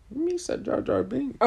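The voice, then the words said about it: Jar Jar Binks character impression. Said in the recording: “What does Jar Jar Binks even sound like? ... Do an impression.”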